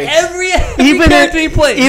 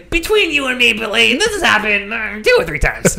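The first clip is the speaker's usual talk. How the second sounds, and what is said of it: Imitates another person's voice. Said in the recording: “That's a good impression.”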